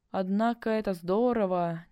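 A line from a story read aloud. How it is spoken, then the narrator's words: Half-thought mutter. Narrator (Russian): Не то подумал, не то забормотал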